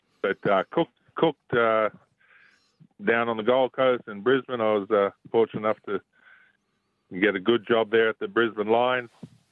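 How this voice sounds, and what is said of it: Australian accent with American tinge. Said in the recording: “picked up an accent ... My son says I sound a little bit like a Yank”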